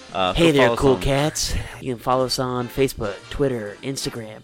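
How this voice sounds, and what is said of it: Deliberately smooth announcer voice. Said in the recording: “That was your smooth voice? ... My voice is very smooth. High and terrible”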